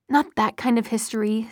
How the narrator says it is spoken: said Alec irritably

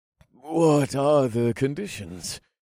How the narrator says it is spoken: I asked, and I was proud that my voice only shook a little

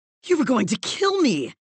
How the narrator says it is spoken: Malcolm gasped, his face agape in realization

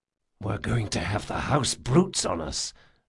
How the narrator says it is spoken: Jean whispered to Ezri

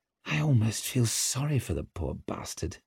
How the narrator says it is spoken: muttered Orso

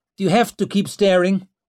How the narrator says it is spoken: She snapped

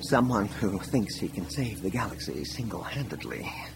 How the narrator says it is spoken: Leia mumbled

